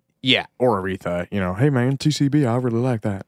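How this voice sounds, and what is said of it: Imitates another person's voice. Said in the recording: “my James Baldwin impression.”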